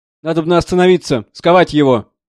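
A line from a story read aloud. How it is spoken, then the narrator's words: Shouting. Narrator (Russian): кричал заседатель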